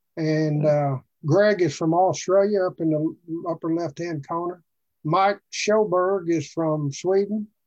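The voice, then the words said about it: Arkansas Southern accent. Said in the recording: “You can't hardly tell it from my accent, but I am. I'm from Arkansas.”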